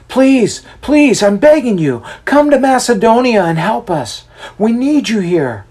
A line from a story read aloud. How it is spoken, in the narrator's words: we could hear him yell out